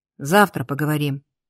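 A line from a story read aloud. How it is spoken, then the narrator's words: Quiet. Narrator (Russian): Тихо сказал Арк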